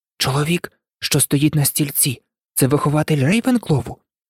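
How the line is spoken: Whisper. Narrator (Ukrainian): прошепотів Гаррі до Герміони

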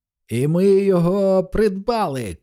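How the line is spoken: Shout. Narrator (Ukrainian): крикнула Маккласкі

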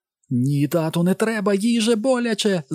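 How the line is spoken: Shrieking. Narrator (Ukrainian): заверещала Елен

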